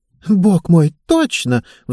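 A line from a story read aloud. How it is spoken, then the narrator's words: Excited exclamation. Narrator (Russian): взволнованно воскликнула Мишель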